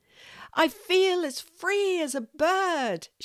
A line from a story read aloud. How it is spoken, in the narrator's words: she cries